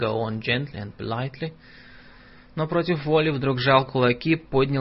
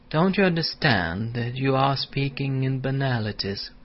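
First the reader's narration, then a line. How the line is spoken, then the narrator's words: Soft and polite. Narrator (Russian): продолжать мягко и вежливо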